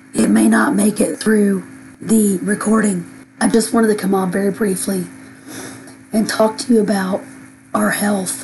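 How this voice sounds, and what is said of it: Hoarse, failing voice. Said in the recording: “as you can tell, I am losing my voice completely”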